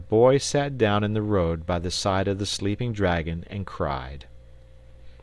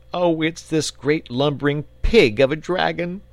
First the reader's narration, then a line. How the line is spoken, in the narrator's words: sobbed the boy